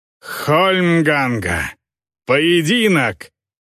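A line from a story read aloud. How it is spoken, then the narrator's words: Growled. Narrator (Russian): прорычал он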